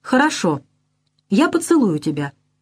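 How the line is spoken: Calm. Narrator (Russian): спокойно говорит она

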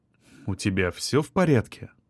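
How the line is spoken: Gentle question. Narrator (Russian): Мягко поинтересовался Павлов

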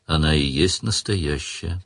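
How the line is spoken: Weary. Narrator (Russian): устало сказал Сварог

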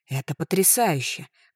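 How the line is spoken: Delighted breathless exclamation. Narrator (Russian): восторженно выдохнула

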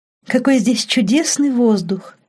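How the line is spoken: Delighted noisy sigh. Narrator (Russian): Лорен шумно вздохнула

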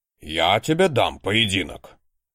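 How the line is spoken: Normally quiet librarian barking. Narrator (Russian): гаркнул обычно не повышающий голос библиотекарь

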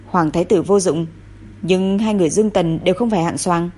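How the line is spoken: Cold contemptuous snort. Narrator (Vietnamese): Thụy Vương lạnh lùng hừ một tiếng

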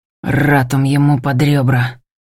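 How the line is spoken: Quiet growl through teeth. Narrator (Russian): рычу, цыжу тихо

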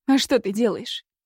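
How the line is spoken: Snapping. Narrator (Russian): огрызнулась Кира

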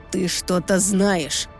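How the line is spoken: Growling voice. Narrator (Russian): Его голос сейчас мало отличался от рычания

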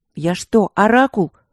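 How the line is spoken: Snapped. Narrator (Russian): огрызнулась я

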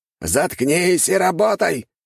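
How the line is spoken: Harsh snap. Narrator (Russian): рявкнул культиватор

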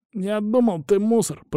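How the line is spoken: Wheezing. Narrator (Russian): просипел тот

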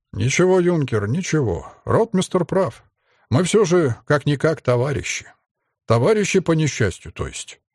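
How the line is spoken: Plain. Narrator (Russian): ответил подполковник Молчанов

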